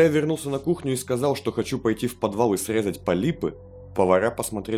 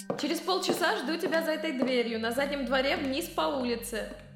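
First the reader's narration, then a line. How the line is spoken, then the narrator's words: Shouting, moving away. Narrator (Russian): крикнула она, уходя в темноту коридора в кухне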